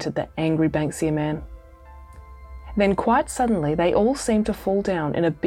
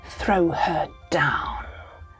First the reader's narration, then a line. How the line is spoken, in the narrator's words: hissed Mrs